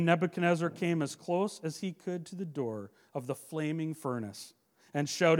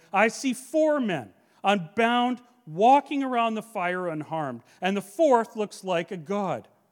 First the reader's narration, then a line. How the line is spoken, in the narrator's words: Nebuchadnezzar shouted